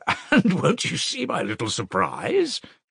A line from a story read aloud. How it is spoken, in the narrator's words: chuckled Porfiry